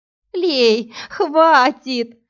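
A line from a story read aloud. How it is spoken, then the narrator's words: Laughing groan. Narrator (Russian): смеясь, простонала Иви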